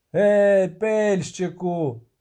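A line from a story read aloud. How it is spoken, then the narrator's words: Shouted. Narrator (Ukrainian): крикнув Богольд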